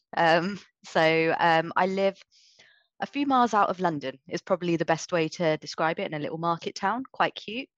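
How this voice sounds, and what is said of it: British accent. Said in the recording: “you can probably tell by the accent that I am living in the UK”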